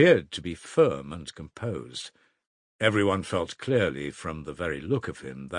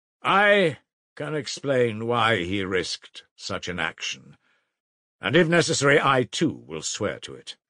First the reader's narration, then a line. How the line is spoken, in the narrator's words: Raskolnikov said at last in a firm voice